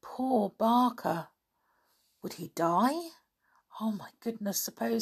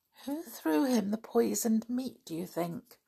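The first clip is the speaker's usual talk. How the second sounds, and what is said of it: Small, timid voice. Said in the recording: “Asked Anne in a small voice.”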